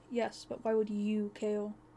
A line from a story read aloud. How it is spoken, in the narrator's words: She sighed